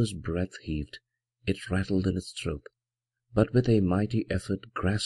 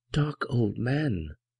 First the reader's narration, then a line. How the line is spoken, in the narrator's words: exclaimed the affrighted minister